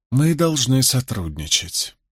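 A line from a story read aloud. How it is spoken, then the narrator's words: Hissing. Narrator (Russian): прошипел он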